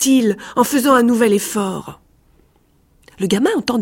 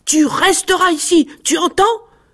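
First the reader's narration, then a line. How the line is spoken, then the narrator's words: Shouted. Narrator (French): cria-t-il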